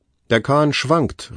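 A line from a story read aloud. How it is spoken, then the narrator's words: Old man calling out. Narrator (German): rief der Alte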